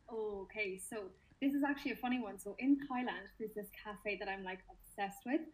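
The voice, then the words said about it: Relaxing Irish accent. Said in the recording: “where you're joining us from if they can't gather from your accent... I am from Limerick in Ireland... Love, love, love your accent. It's so like relaxing.”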